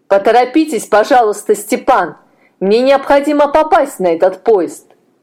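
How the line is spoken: Shouting after departing man. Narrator (Russian): крикнул инженер удалявшемуся молодому человеку

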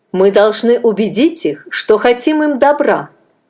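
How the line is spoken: Firm voice. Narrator (Russian): ответил Адонирам твердым голосом

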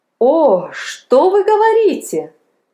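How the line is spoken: Joyful astonished exclamation. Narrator (Russian): радостно воскликнул пораженный Палку

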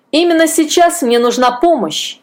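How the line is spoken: Grumbling. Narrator (Russian): ворчал Амос Клоу

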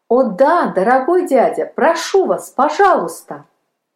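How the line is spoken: Joyful exclamation. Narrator (Russian): воскликнул Палка радостно

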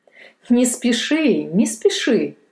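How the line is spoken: Laughing father. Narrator (Russian): засмеялся отец

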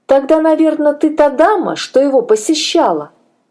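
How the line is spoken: Lively exclamation. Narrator (Russian): воскликнула оживленно Шарлотта

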